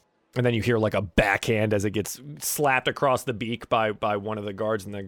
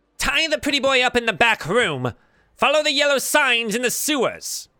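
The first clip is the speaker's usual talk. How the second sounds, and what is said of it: Thin nasally creature voice. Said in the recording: “in a different voice, and it's kind of in a thin nasally tone.”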